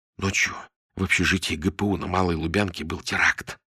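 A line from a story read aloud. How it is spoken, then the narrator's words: Whispered explanation. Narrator (Russian): шепотом объяснил Антон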